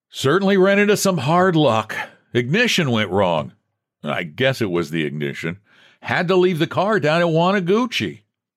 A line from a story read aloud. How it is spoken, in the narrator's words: Jasper jovially shouted